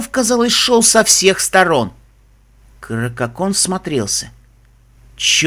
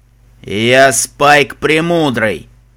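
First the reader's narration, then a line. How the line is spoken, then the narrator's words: Loud dragon, slightly quieter. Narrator (Russian): Немного тише, но все еще громко ответил черный дракон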